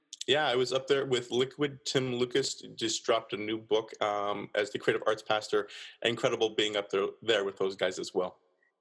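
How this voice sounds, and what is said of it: Mild, mixed Canadian accent. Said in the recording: “you're Canadian, right? ... you'll hear some outs and abouts ... My accent at this point, because I've been bumped around a bit, is a little bit muddied, and I'm a bit of a mutt when it comes to my accent ... you'll hear some A's I'll sprinkle in”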